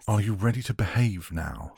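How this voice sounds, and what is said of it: Sharp, artificial upper-class accent. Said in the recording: “His accent was sharp, artificially upper class.”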